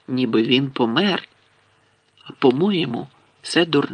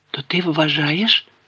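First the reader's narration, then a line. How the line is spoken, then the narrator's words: Hoarse voice. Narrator (Ukrainian): хрипким голосом мовив Гаррі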